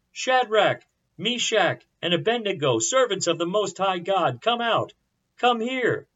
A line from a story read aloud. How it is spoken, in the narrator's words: Nebuchadnezzar shouted